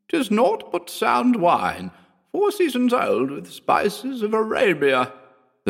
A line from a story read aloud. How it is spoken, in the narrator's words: the sorceress croaked ingratiatingly